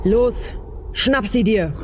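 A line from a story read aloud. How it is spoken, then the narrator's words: Thundering command. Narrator (German): donnerte Uliana dem Anstandsvorwau entgegen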